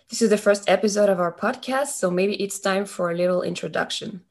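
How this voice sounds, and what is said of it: French accent. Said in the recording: “we have a bit of an accent because we are French”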